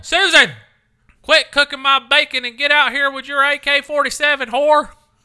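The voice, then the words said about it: Strong Southern American accent. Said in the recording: “you're Southern as hell ... I make a Southern accent more pronounced”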